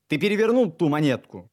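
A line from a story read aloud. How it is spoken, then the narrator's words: Shouting. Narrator (Russian): крикнул я ему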